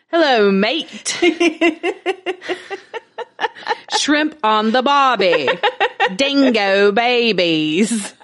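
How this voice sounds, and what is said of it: Deliberately bad Australian accent. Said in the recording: “Australian accent ... In the most horrific Australian accent ever ... it's so bad”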